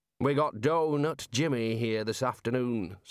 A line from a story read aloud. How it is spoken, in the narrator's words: said the Dean